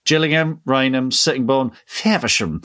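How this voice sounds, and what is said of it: Posh train announcer voice. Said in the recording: “the recorded voice on the train does it in a posh voice ... it just becomes posher and posher every time we say it”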